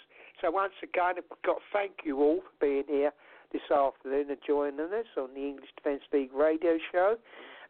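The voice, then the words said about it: Voice giving out, strained. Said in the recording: “my voice is just going now”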